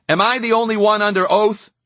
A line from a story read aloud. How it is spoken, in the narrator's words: Gaines shouted back